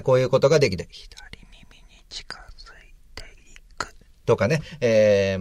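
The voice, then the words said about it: Close-mic male whisper. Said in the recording (Japanese): “ささやきとかね、ささやいてみましょうか。気持ち悪いですけどもね、男がささやくとね”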